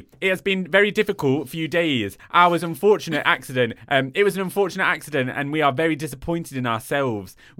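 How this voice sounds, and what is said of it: Put-on Nottingham accent. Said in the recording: “Nottingham accent ... Nottingham accent, how do I do it?”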